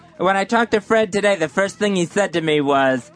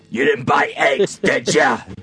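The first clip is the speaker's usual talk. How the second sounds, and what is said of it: Imitates another person's voice. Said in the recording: “good Fred impression”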